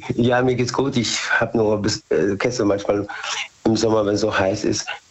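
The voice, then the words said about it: Slightly hoarse voice. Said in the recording (German): “Ich bin ein bisschen heiser. ... man ist zwischendurch ein bisschen heiser”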